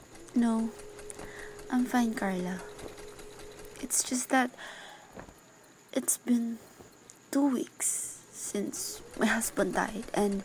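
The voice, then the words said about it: Whispering. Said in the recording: “You think I can hear you whispering to one another?”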